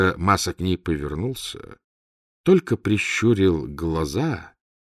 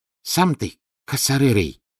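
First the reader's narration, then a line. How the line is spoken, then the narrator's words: Annoyed hiss. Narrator (Russian): Раздосадованный Маса прошипел деду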